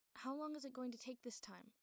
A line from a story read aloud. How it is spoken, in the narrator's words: He asked, trying to keep his voice steady and casual